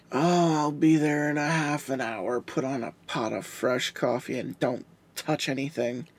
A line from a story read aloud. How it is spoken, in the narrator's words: Deputy Love muttered